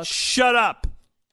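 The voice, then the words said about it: Yelling. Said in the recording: “you're yelling at me”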